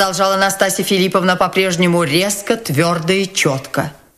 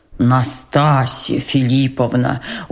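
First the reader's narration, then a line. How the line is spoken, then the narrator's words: Persuasive but anxious. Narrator (Russian): убеждающим, но встревоженным голосом произнес генерал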